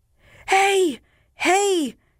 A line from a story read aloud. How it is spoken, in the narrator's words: they shouted, suddenly recovering their spirits